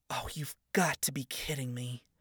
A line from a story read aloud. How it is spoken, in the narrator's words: she muttered under her breath